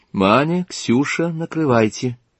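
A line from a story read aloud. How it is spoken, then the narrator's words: Quiet. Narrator (Russian): негромко сказала хозяйка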